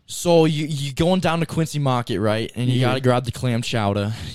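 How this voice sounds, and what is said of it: Put-on Boston accent. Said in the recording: “Do your Boston accent right now to end it off. Is it pretty good? ... It does come pretty naturally.”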